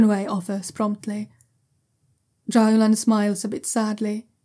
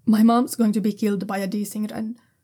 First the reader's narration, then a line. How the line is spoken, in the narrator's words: he says quickly